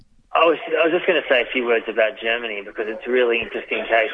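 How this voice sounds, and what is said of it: Australian accent. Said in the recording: “I am an Australian citizen, as people can hear my accent”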